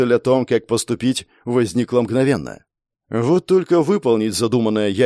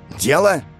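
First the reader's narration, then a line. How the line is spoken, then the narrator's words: Snapped back. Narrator (Russian): Огрызнулся и Шармор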